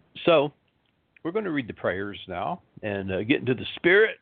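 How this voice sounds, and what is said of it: Tired-sounding voice. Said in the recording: “I am tired ... if I sound a little tired, I am”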